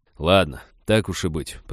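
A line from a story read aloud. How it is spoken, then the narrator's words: Grumbling. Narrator (Russian): проворчал он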